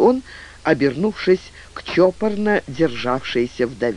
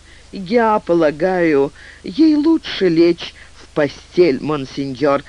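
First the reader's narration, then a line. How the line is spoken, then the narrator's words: Plain. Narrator (Russian): ответила мадам Деделай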